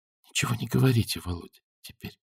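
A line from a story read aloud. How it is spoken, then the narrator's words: Whisper. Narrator (Russian): прошептала Наташа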